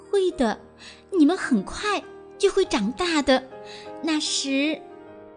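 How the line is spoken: Soft, smiling, confident. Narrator (Chinese): 微笑着，充满自信地对自己的小翅膀轻声说

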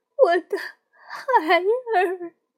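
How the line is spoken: Grief-stricken sobbing. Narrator (Chinese): 哭得悲痛欲绝

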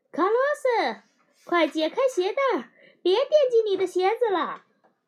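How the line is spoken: Loud shout. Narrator (Chinese): 他朝卡拉斯卡洛斯大喊

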